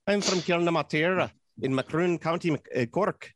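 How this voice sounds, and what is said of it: Put-on Irish accent drifting Scottish. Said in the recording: “let's do the Irish accent ... it's a little Scottish there. I was turning into ... I was turning into Scrooge McDuck as I was doing that”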